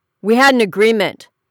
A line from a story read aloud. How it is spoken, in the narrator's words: her husband snapped